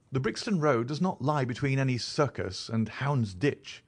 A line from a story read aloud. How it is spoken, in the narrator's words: said Sherlock Holmes sharply